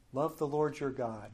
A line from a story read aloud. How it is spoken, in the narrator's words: said